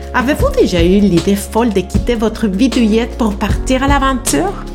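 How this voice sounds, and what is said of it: Spanish-accented French. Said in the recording (French): “mon accent tropical en français ... Je suis une Mexico-espagnole franco-canadienne”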